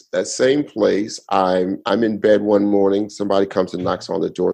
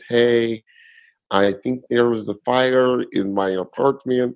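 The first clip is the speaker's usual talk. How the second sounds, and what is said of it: Put-on Russian accent. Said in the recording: “This is my Russian accent... Oh, that was Russian... Very good. Yes. So good... that wasn't bad... That was good.”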